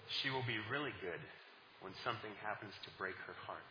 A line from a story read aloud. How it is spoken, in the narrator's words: the composer replied softly